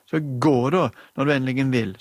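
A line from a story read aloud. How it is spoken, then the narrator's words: Screaming. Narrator (Norwegian): skrek hun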